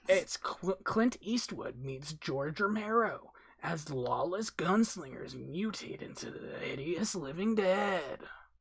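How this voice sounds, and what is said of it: Dramatic movie-trailer narrator voice. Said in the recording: “That's a really good narrator voice.”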